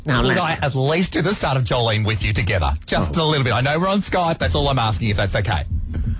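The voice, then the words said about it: Strong Australian accent. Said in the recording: “You have such an accent, you know. You're very down under.”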